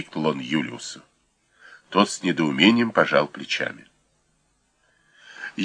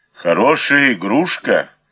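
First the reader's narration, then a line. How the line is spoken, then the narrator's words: Booming drone. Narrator (Russian): прогудел вошедший Пыдер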